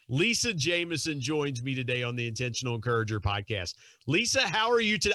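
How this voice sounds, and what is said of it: Thick West Virginia accent. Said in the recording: “you have a wonderfully thick accent ... the West Virginia accent”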